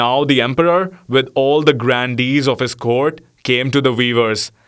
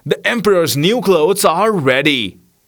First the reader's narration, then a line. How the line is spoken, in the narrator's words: cried they at last